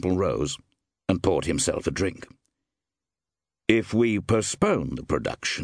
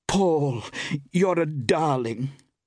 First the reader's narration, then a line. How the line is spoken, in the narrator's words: cried Iris in amazement